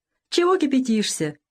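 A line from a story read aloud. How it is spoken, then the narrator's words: Forgiving light laugh. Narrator (Russian): прощающе рассмеялся легко раненый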